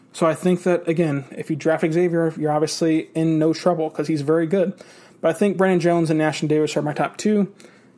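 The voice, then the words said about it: Sick-sounding voice with stammering. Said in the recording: “I'm a little bit under the weather, as you can probably tell by my voice and the stammering”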